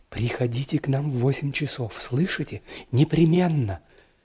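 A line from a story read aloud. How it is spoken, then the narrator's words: Quick affectionate whisper. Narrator (Russian): скороговоркой и с прежним ласковым выражением в глазах шепнула мне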